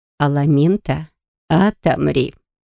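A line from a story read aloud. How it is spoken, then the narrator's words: Whisper. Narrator (Russian): шепнула эр-леди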